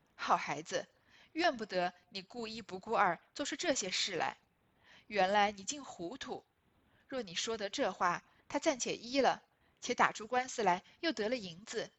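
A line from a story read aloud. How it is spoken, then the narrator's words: Laughing. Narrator (Chinese): 凤姐笑道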